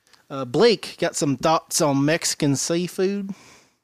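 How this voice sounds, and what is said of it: Put-on accent. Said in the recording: “Thank you for that accent.”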